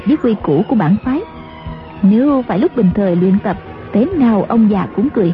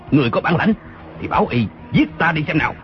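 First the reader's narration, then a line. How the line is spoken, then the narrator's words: Angry reply. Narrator (Vietnamese): Tư Mã Lâm giận dữ đáp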